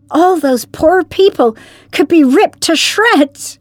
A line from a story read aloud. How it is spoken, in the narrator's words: cried Perry